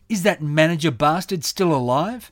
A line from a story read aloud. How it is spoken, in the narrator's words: she said with her lip curled in her characteristic snarl